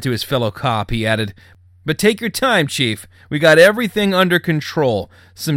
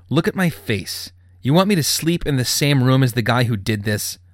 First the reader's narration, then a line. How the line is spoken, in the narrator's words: Trent gritted through his teeth